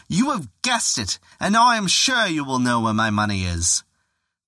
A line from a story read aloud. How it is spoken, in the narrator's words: the nobleman heard this, he cried out